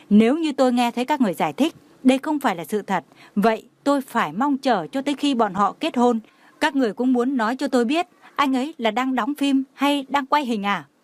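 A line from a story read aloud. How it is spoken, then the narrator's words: Furious, trembling. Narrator (Vietnamese): Trần Mạn Hồng đã tức giận đến sắc mặt trắng bệch, cả người phát ru nói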